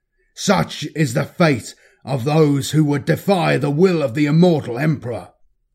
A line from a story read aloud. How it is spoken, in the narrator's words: Caelan shouted to the assembled cultists